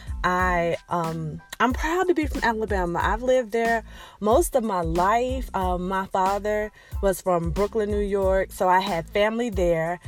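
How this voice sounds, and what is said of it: Slight Southern Alabama twang, slow speech. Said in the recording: “if you listen really, really close, you can hear that little Alabama twang, that southern twang. It's not country, but it's definitely southern ... we talk a little slowly”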